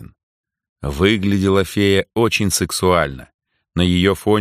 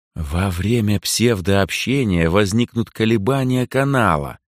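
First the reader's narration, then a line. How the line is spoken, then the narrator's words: Velvety honeyed voice. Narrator (Russian): бархатным, можно сказать, медовым голосом произнесла Асока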